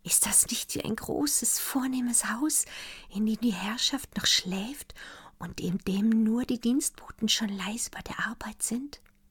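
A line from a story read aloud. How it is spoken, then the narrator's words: Whispered. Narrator (German): flüsterte Daniela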